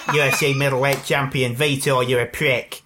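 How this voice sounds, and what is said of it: Imitates another person's voice. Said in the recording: “your famous Bisping one? ... That's a fucking good impression. ... It's actually quite similar to my Don Monahan impression”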